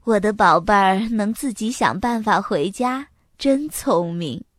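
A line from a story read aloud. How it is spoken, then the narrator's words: Gentle mother's voice. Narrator (Chinese): 妈妈温柔地说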